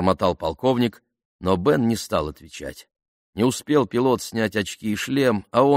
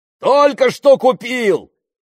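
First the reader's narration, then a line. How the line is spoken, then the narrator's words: Yelling. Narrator (Russian): заорал он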